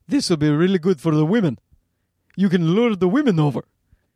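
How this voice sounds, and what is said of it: Poor impression of another man. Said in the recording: “that's a bad Hisham... more of an impression of like Sarah's dad”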